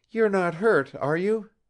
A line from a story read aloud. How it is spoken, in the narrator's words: Zita cried anxiously